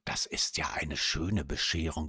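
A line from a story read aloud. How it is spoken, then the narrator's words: Whispered. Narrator (German): flüsterte sie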